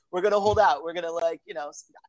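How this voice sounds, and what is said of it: Put-on Italian-American accent. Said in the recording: “I get some props for that accent, right?”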